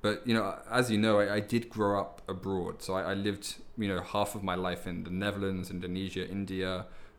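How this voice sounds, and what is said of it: Soft London British English accent. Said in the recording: “pretty typical British English accent ... Especially from London ... my accent's probably a little bit softer than most british people”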